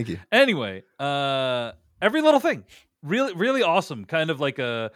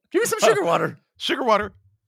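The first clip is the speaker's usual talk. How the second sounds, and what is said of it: Hummingbird character voice. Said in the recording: “Amazing hummingbird uh, impersonation”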